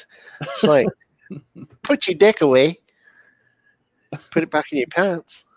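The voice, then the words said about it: Put-on New Zealand accent. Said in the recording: “a New Zealand accent is just a little different than an Australian accent ... they replace the I's with E's and the E's with I's”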